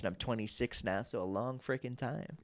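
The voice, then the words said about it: Matthew McConaughey voice. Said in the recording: “You haven't knocked out of McConaughey either... You just started talking like McConaughey a little bit.”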